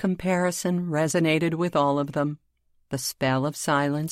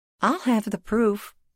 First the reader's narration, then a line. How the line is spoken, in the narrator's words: piped up Karen